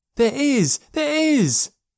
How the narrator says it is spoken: yelled Joe

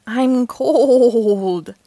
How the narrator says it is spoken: exclaimed

